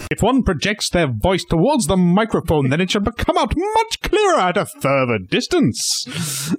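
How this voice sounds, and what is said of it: Booming projected theatrical voice. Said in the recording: “should I do the entire podcast speaking like this? ... You sound like mildly like Brian Blessed. ... A slightly young, less deep voice, Brian Blessed.”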